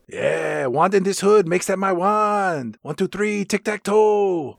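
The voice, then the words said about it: Put-on Hispanic accent. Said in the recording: “your only impression for Hispanic people is from Stand and Deliver.”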